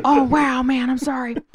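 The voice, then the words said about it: Imitates another person's voice. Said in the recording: “That was a really good impression of fucking Owen Wilson.”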